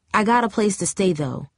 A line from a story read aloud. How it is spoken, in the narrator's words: she added quickly with a touch of anger